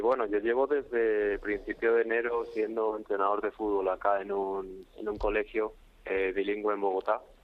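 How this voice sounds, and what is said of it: Madrid Spanish with partial Colombian accent. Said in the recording (Spanish): “Uy, qué acento, ya se te ha pegado el acento colombiano... uno de Carabanchel ya con medio acento colombiano”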